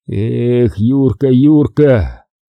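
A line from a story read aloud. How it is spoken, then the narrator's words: Bitter strained utterance. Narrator (Russian): с горечью выдавил из себя Николай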